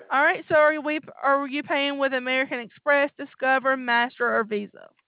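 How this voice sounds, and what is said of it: Alabama Southern accent. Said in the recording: “I sure do like that Alabama accent. It makes me feel like I'm at home.”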